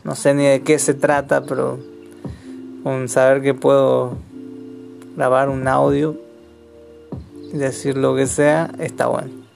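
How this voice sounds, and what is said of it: Argentine Chaco accent. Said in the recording (Spanish): “soy chaqueño, argentino. Una combinación dulce de sabores, intereses, acento”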